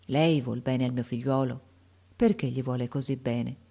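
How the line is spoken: Sad, affectionate voice. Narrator (Italian): gli disse con voce triste e affettuosa

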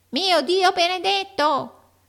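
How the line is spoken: Oddly spoken. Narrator (Italian): in un modo così curioso

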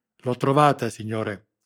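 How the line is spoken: Exclaimed. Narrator (Italian): esclamò l'agente

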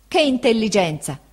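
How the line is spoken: Exclaiming. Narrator (Italian): esclamò Peggotty

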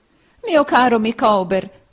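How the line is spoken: Wife exclaiming. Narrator (Italian): esclamò sua moglie

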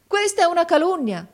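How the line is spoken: Brother exclaiming. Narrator (Italian): esclamò mio fratello

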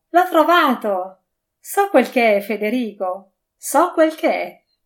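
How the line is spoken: Woman exclaiming through laughter. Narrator (Italian): la sorella pianotta, presa dalla convulsione di larità, esclamò

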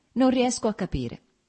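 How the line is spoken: Plain reply. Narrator (Italian): rispose Lievin

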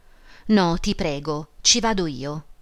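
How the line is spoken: Deliberately stubborn exclamation. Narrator (Italian): Emma esclamò con un tono di voluta caparbietà

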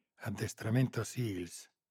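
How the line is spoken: Whispered. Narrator (Italian): sussurrò Moretti

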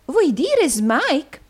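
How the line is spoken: Exclaimed. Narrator (Italian): esclamò

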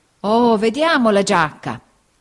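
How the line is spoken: Old man exclaiming. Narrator (Italian): esclamò il vecchio

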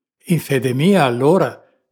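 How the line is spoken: Impulsive exclamation. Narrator (Italian): esclamò il capitano d'impulso

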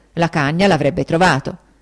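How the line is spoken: Exclamation. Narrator (Italian): esclamai

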